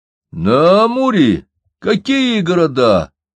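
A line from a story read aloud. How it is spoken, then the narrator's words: Exclamation. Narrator (Russian): воскликнул Алексей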